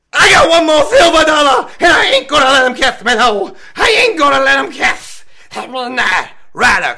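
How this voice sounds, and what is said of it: Imitates a wrestler's voice. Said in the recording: “That was only my impression. ... That wasn't me. That wasn't Midnight”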